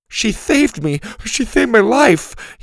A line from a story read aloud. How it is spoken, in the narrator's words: he whimpered